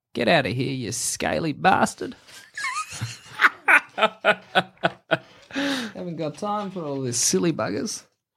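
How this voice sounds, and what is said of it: Old Australian woman character voice. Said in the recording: “like an old like drover ... Like an old salt of the earth kind of Australian woman ... a bit of like an older version of your accent”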